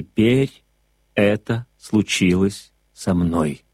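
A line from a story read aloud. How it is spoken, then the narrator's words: Plain. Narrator (Russian): ответил Монтек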